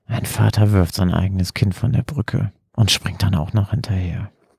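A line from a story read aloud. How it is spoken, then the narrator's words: Tearful murmur. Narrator (German): wischte William sich eine Träne von der Backe und murmelte dann kopfschüttelnd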